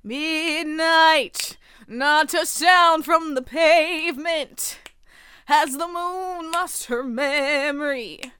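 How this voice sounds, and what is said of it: Jazzy crooning singer impression. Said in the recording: “Can I make it like jazzy? ... this is my Frank Sinatra impression, apparently.”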